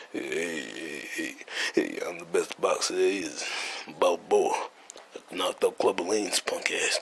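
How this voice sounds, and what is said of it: Mediocre Rocky Balboa impression. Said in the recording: “I don't really do Rocky impersonation that good”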